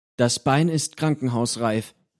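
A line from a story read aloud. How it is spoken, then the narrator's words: Plain. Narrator (German): sagt Sockwe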